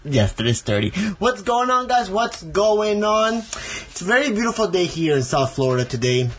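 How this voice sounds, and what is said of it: Hispanic accent. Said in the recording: “the Hispanic accent of”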